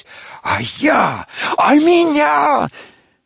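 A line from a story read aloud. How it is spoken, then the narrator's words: Jealous, boastful shouting. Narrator (Russian): тряслись от ревнивой злобы и кричали, словно бахвалились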